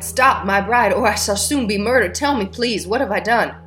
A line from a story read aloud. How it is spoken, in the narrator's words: cried